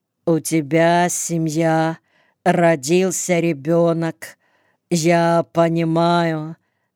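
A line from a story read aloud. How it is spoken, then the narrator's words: Slow start. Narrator (Russian): медленно начал Володька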